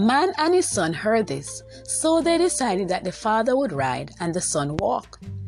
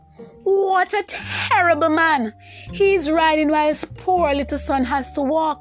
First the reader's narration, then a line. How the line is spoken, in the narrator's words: they called out